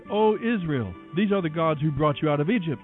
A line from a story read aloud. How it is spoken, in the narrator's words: The people exclaimed